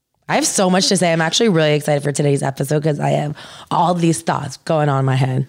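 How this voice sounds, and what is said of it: Husky, strained voice. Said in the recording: “whenever I'm feeling a little under the weather, one of the first things to go is my voice ... you sound sexy”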